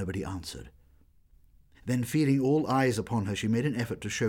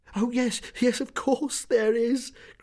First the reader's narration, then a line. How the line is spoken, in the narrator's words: cried Meg Giry